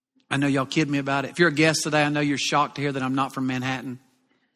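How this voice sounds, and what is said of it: Southern US accent. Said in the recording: “I struggle sometimes, believe it or not, with my southern accent.”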